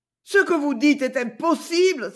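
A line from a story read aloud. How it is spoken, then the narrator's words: Vehement exclamation. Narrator (French): s'écria-t-elle avec véhémence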